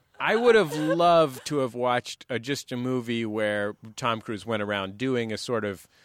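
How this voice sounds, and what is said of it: Usual voice. Nothing is said of it.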